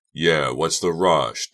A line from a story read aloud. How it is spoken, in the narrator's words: Doug repeated sullenly